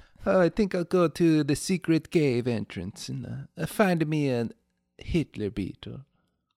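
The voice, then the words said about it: Bad put-on Italian accent. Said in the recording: “the worst Italian accent I've ever done”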